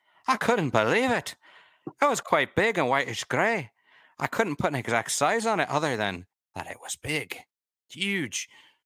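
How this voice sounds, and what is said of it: Bad put-on Scottish accent. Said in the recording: “There's bad Scottish. I try to work in one bad accent every episode”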